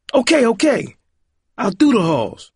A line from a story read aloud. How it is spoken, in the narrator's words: Roiland snapped